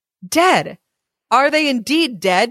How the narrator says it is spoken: cried

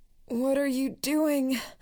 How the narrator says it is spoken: the man on the floor moaned

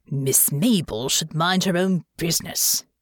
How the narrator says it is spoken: he muttered

